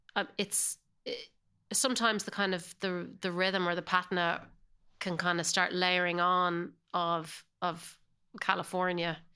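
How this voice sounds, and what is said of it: Irish accent. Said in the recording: “your accent hasn't changed a bit. Not a bit. ... you still say it with an Irish accent ... I definitely hold on to my Irish accent”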